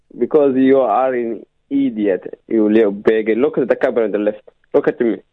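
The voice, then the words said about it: Caller putting on a funny voice. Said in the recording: “are you doing a funny voice?”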